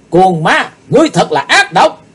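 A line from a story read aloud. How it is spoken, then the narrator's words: Loud scream. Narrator (Vietnamese): Chí Tôn quay lại thét lớn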